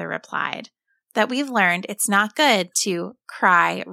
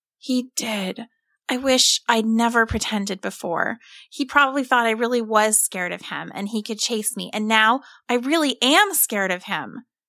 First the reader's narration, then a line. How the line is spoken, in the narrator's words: Tim moaned